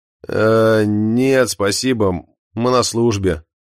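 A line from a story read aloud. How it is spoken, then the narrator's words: Pained tone. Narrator (Russian): отвечает Эндрю страдальческим тоном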